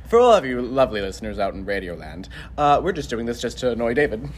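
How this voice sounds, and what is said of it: Radio announcer voice. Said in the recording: “I'm just pretending it's radio so I can do my radio announcer voice.”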